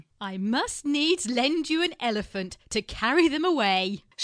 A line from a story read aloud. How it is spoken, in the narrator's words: she said, laughing